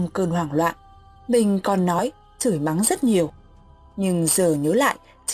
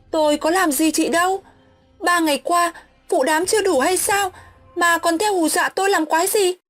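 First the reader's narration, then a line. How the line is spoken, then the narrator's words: Straining loud shout. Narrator (Vietnamese): Mình ráng gồng hết sức, miệng hét toáng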